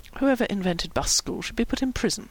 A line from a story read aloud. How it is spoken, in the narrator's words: Howie said bitterly